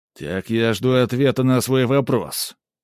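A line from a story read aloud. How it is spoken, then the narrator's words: Stern, slightly raised voice. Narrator (Russian): грозно, чуть повысив голос, повторил папа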